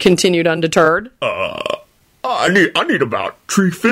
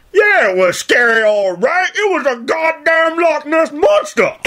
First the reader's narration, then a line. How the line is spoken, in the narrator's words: Cotton hollered gleefully